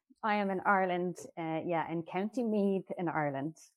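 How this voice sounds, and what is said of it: Irish accent. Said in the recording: “you have an accent. ... I'm from Ireland.”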